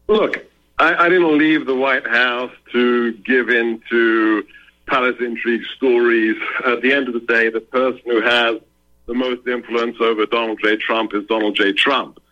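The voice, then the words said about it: English accent. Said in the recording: “Sebastian Gorka, Hungarian parents, but he is born in England ... just think English accent. Sebastian Gorka is speaking with an English accent”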